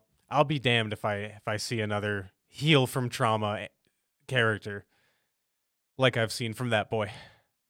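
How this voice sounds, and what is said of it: Choked up, emotional voice. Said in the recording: “I'm actually getting a little choked up right now.”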